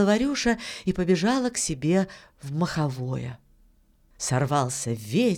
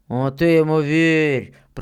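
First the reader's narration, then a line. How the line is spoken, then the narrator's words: Muffled booming soldier's voice. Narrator (Russian): прогудел другой боец из-под поднятого ворота шинели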